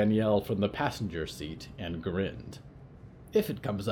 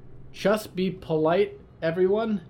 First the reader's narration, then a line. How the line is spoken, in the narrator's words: Riot said loudly